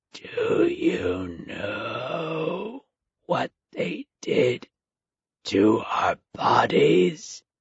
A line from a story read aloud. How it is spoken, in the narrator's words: the corpse rasped